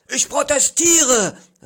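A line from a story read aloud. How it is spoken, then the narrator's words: Called out. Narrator (German): rief ich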